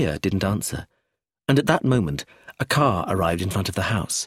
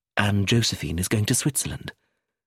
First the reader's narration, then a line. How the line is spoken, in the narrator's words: Sophia said quietly